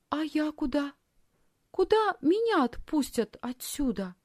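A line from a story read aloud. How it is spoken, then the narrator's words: Timid question. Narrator (Russian): робко спросила Лисхин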